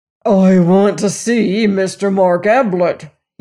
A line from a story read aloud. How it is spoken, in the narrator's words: growled